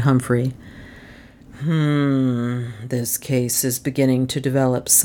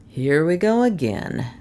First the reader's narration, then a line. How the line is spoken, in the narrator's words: said Doan